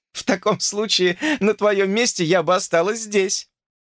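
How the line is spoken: Laughing. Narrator (Russian): рассмеялась она

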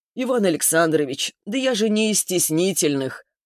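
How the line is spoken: Mocking, smiling. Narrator (Russian): Лурье насмешливо улыбнулся

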